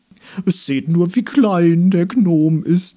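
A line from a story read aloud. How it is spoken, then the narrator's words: Flower calling out. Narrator (German): rief ein gelber Blumenkopf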